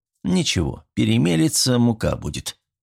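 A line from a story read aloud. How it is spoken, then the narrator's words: Snorting to himself. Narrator (Russian): хмыкнул про себя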